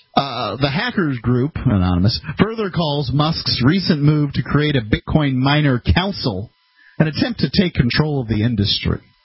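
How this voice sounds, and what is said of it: Slight country accent. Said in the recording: “It's just my accent. ... I do have a bit of the country accent.”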